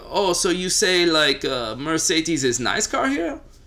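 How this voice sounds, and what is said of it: Put-on German accent. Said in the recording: “That was a very, very interesting German accent.”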